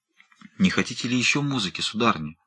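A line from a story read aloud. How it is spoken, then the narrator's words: Timid question. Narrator (Russian): спросил, наконец, Родерик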